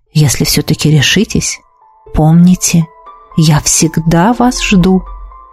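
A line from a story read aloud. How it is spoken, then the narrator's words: Whispered. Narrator (Russian): хозяин дома шепнул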